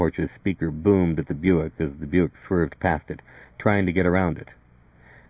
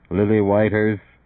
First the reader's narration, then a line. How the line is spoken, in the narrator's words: speaker thundered, a gross and magnified voice directly behind them